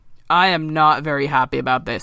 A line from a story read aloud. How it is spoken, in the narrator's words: he grumbled